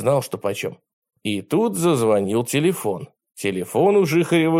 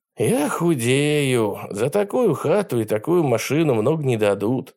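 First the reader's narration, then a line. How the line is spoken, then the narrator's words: Sigh. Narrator (Russian): вздохнул Нил Филимонов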